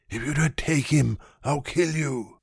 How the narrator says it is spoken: her mother hissed through her set teeth

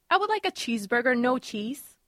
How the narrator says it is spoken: says a woman in a demanding voice

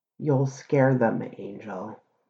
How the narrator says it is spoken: he said gravely

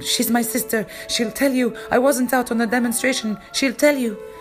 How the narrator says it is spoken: The boy started screaming

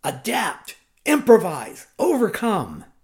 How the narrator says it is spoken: my tough old Marine Corps gunnery sergeant would bellow

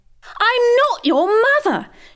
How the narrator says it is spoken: shouted Mrs

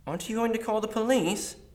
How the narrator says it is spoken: Martin asked frantically

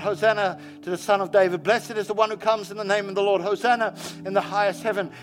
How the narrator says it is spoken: they called out

